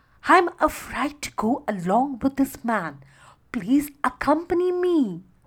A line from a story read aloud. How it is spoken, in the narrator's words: she pleaded